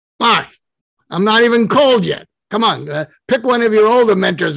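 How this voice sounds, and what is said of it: Larry King Brooklyn accent impression. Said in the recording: “Larry King ... in his Brooklyn accent”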